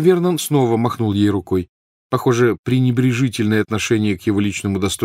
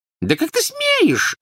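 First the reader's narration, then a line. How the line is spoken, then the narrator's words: Shrill squeak. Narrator (Russian): запищала тетя Петунья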